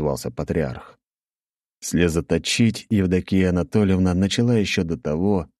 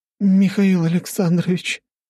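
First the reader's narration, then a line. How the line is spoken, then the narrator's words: Trembling voice. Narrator (Russian): дрожащим голосом сказала Евдокия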